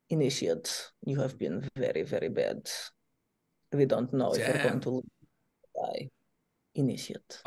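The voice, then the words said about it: Put-on Russian accent. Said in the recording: “I'm doing a Russian accent.”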